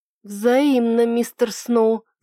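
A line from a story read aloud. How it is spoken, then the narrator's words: Belated drawl. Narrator (Russian): запоздало протянула я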